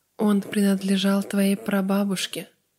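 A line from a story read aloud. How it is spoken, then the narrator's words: Old man, slightly hoarse. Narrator (Russian): сказал прадедушка немного хрипло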